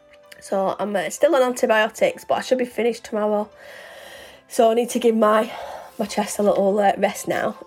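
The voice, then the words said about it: Strained, fading voice. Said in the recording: “see, my voice is going now”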